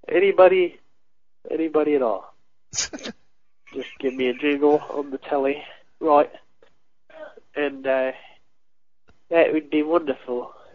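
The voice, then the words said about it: Put-on British accent. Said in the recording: “Did he go into a British accent now?”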